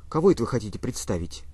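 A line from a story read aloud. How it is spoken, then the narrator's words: Quiet question. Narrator (Russian): тихо спросила Лизавета Ивановна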